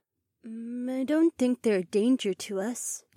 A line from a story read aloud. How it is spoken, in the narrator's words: Daisy murmured